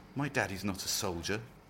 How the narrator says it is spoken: Doreen whispered, but she was unconvinced by her own doubts

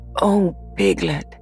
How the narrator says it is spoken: said Pooh excitedly

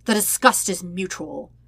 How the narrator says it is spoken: Zuko snaps

